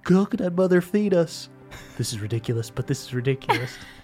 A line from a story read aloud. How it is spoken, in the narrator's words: under his breath goes